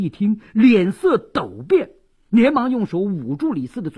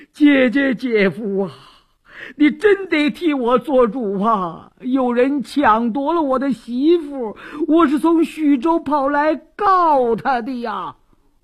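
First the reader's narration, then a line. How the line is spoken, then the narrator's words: Wailing, sobbing. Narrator (Chinese): 李四禁不住哇哇大哭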